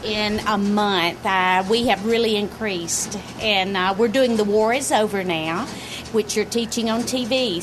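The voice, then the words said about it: Southern US Alabama accent. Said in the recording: “Where's that accent from? ... Alabama.”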